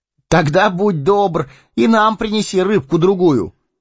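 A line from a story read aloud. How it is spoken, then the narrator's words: Calling after someone. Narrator (Russian): крикнул ему вслед Фродо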